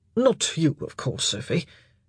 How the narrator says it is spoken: his cheeks colouring slightly, he mumbled

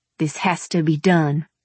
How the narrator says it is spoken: Ed said through clenched teeth

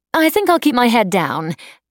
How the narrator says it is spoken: Nanette said dryly

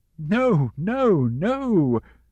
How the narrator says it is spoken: Mama cried

